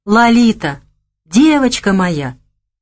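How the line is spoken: Joyful exclamation. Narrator (Russian): радостно воскликнул Гога

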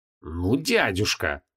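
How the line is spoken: Hissed. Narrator (Russian): прошипел прекрас

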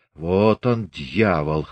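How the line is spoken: Snorting. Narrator (Russian): хмыкнул Григорий

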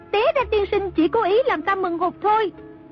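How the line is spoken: Stamping, shouting. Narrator (Vietnamese): A Tử dậm chân la lên

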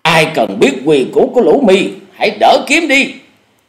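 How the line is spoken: Shouted. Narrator (Vietnamese): Cùng với tiếng quát

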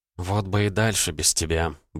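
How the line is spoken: Grumbling. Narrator (Russian): буркнула Элли

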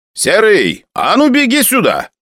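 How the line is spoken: Shout. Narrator (Russian): крикнул мне Араратович

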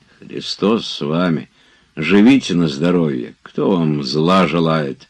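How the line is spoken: Embarrassed grumbling. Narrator (Russian): ворчал Захар в совершенном смущении от трагического оборота, который начинала принимать речь

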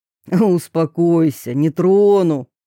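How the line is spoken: Snorting. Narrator (Russian): хмыкнул Федор

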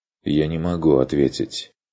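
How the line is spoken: Even objection. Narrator (Russian): возразил Курт ровно

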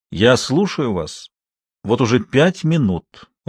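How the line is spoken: Even, level tone. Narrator (Russian): ровным тоном произнес он

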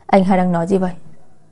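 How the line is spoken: Smiling. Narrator (Vietnamese): Lạc Thiên Ngưng mỉm cười

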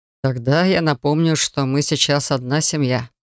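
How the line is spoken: Wry snort. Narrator (Russian): хмыкнул колдун

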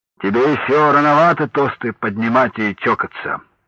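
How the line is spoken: Soft deep bass. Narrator (Russian): Иван Иванович мягко пробасил

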